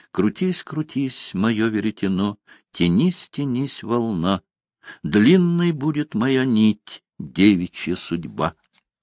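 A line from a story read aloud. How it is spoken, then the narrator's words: Soft consoling singing. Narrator (Russian): В утешение себе она запела тихим голоском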